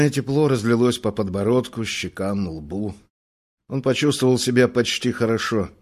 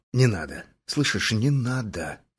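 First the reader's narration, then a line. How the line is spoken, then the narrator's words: Quiet. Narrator (Russian): сказал тихо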